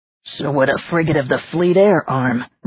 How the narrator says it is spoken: Richard grumbled

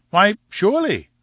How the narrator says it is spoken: I cried, and gloried in my own audacity

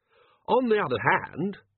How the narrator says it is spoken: he said brightly

